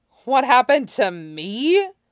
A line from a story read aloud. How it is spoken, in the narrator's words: Wei Wuxian echoed with a choked laugh